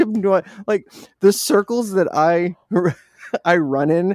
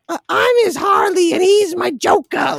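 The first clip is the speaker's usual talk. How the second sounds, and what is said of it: Marge Simpson voice with Boston accent. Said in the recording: “you got the Marge Simpson voice down too... And the Boston accent.”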